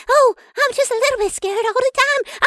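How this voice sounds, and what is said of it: Scared, afraid character voice. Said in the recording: “scary voice. Oh, I mean, or your very afraid voice”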